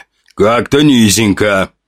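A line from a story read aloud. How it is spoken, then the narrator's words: Boss grumbling. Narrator (Russian): проворчал босс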